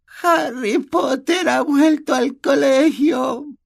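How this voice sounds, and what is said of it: Sad whisper. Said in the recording (Spanish): “susurró triste”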